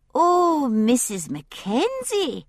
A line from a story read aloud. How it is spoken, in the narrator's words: she said, pitching her voice high and through her nose